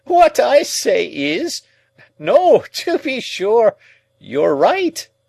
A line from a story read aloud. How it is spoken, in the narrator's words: pursued the old man, again laughing heartily